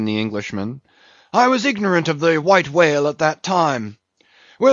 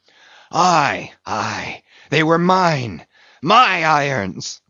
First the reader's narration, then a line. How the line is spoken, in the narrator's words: cried Ahab exultingly